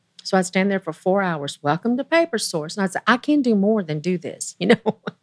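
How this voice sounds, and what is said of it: Southern American accent. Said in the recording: “your Southern accent”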